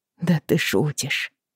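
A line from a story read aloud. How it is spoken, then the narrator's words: Through gritted teeth. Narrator (Russian): процедила она сквозь зубы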